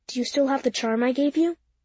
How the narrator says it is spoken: Miss Russell said to me in a quiet voice so that I was the only one who could hear her

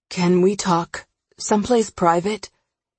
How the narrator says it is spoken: The edge in his voice betrays his exhaustion and nervousness

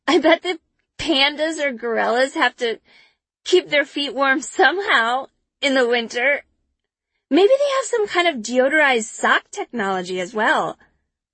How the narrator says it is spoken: I gasp out

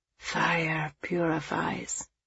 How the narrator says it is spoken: he said softly

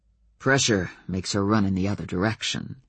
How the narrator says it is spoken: Adam said dryly

